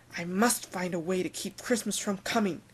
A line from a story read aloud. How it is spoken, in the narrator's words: he growled with his Grinch fingers nervously drumming